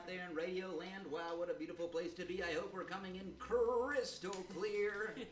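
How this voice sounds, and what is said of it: Radio DJ announcer voice. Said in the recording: “This is my DJ voice”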